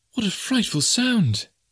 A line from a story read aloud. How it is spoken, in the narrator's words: cried Jane